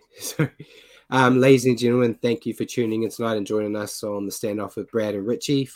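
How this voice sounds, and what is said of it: Deep voice from illness. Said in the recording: “braving your sickness ... I just like having a deep voice once once in my life”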